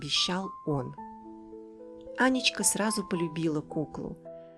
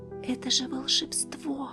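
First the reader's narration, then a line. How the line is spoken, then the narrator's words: Whispering. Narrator (Russian): шептала Аня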